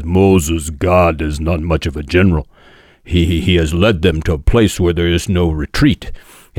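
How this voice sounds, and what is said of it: Weak Yul Brynner impression. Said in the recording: “my Yul Brynner impersonation, not very good”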